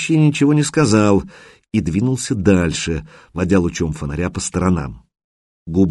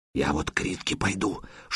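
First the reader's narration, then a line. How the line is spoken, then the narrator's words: Whispered. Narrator (Russian): шепотом продолжил Сиплый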